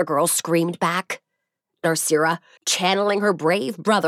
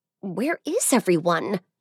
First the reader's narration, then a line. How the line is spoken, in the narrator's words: muttered